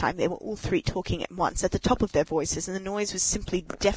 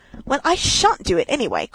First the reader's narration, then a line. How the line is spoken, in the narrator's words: cried Toad, getting excited